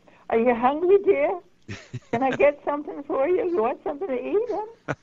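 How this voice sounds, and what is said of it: Gentle, higher character voice, not chesty. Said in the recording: “as you hear my voice, it's a very deep voice, you know, a chest voice. And when I spoke as Marie, it never was that.”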